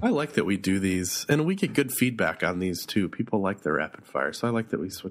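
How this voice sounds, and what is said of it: Rough, hoarse voice. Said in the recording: “My voice sounds a little rough ... It's just a remnant of flu-ness.”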